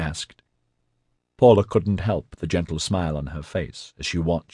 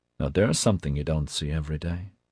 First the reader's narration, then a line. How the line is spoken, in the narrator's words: Hosha said quietly